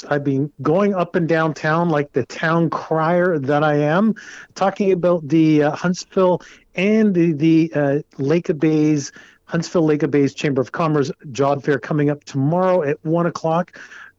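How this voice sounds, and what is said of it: Dry, parched voice. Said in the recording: “My voice is parched.”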